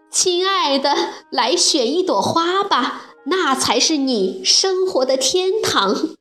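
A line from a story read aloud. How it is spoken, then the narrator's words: Loud. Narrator (Chinese): 小燕子大声地对她说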